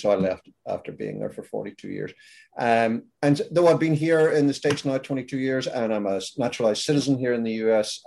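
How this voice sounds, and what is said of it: Northern Irish accent, slightly Americanized. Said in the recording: “I'm originally from Ireland. I'm from Belfast, in fact. Now, Belfast is in the north of Ireland ... my accent has decided not to fully relocate. So it's sort of stuck in the middle there.”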